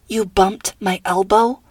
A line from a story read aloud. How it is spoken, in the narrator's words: Nora growled